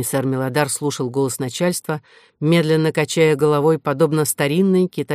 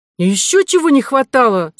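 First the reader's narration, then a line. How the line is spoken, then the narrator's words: Shout. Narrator (Russian): закричала Кора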